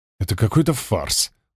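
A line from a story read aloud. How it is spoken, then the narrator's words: Mutter. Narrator (Russian): пробормотал шедший рядом со мной Гладков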